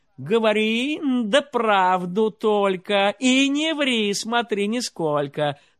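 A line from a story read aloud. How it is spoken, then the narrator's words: King shouting from bed. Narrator (Russian): царь с кровати закричал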